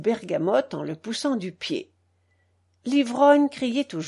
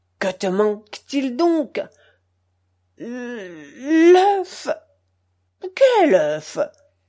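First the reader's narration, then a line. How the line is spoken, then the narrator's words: Slightly subdued howling. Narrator (French): Garaska, modérant un peu ses hurlements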